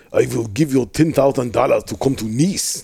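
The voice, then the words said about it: Poor put-on Russian accent. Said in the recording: “This is a terrible Russian accent”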